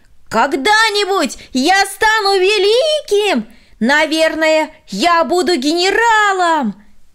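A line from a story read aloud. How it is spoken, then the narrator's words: Shouting from afar. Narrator (Russian): Еще издали он прокричал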